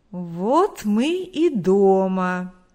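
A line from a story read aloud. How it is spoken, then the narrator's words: Drawl. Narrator (Russian): протянул Виктор Егорович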